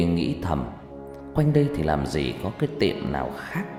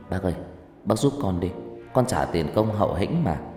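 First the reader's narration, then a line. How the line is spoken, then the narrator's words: Lowered, coaxing sweetly. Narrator (Vietnamese): tôi đành hạ giọng rũ ngon rũ ngọt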